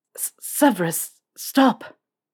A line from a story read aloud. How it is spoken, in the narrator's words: He'd also not admit how much he stuttered through